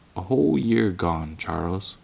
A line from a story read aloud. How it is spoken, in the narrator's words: Ma sighed gently and said